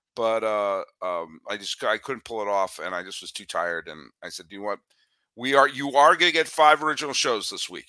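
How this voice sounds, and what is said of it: Slightly raspy, hoarse voice. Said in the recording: “I lost my voice. I was having horrible allergies. I just couldn't talk. It was painful to talk. Probably my voice is still a little raspy”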